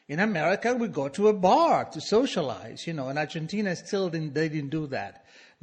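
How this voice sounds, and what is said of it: Foreign-accented English. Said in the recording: “my accent. You know, I didn't know I had an accent ... Do I have accent? Yes, and it's adorable.”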